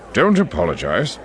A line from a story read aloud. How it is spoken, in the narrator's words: Yularen said with a grunt